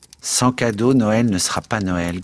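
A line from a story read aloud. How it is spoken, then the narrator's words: Grumbling while lying down. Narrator (French): grommela Joe couché sur le tapis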